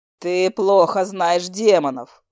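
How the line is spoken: Snort. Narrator (Russian): хмыкнул Джеттон

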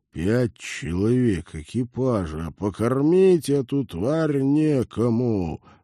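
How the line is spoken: Resigned grumble. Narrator (Russian): обреченно проворчал капитан

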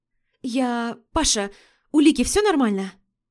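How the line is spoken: Hurried mutter into phone. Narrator (Russian): Торопливо пробормотала в трубку

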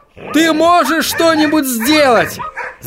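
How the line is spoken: Yelling right in ear. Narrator (Russian): заорал он Отто прямо в ухо

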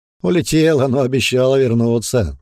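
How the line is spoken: Laughing loudly. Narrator (Russian): вновь расхохотался Бран

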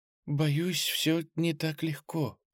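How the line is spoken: Whispered. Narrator (Russian): прошептала та

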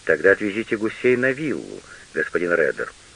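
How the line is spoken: Soft, gentle. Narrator (Russian): мягко сказал Штудман

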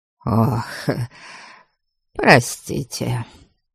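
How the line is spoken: Muffled voice. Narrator (Russian): глухо сказал он

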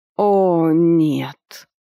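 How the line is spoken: Moaning in unison. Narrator (Russian): простонали мы с ведьмой одновременно

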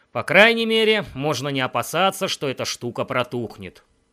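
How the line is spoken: Gloomy. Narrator (Russian): Я мрачно добавил

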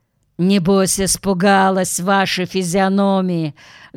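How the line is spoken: Rude reply. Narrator (Russian): грубо ответил тип

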